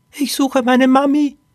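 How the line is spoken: Squeaked. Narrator (German): piepste Poppy

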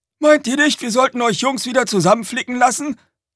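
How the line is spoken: Calling from driver's cab. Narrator (German): rief Red aus der Fahrerkabine

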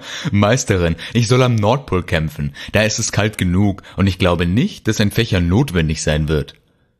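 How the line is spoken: Laughing. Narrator (German): lachte er

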